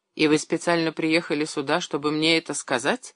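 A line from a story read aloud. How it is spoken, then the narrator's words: Cold, hurt question. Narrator (Russian): холодно спросил уязвленный Шмелев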